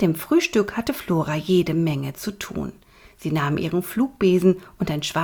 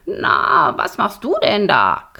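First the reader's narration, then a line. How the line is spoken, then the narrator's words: Croaking. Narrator (German): krächzte Borax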